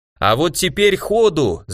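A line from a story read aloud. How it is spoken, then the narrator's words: Shouting. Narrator (Russian): заорал я по-русски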